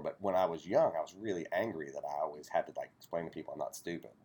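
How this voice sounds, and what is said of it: Appalachian accent. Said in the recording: “I'm Appalachian ... when I have this accent”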